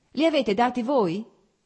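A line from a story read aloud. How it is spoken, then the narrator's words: Shout from behind. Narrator (Italian): gridò da dietro a Blonsky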